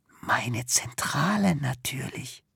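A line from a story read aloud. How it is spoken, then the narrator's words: Self-important whisper behind hand. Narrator (German): Hinter vorgehaltener Hand und mit wichtiger Miene flüstert sie ihm zu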